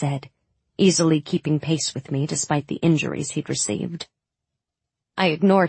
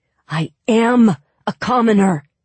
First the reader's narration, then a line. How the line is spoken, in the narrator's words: he growled